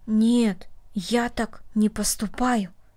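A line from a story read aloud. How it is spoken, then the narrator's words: Quiet. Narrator (Russian): тихо сказал Дина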